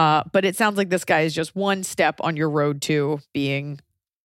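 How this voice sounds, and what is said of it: Usual voice. Nothing is said of it.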